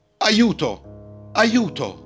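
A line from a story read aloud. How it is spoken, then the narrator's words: Shouting. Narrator (Italian): gridò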